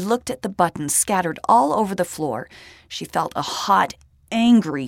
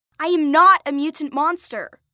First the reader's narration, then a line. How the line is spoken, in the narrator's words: Lacey shouted back